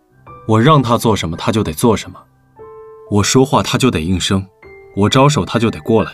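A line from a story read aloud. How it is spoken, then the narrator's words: Cold. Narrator (Chinese): 李寻冷冷道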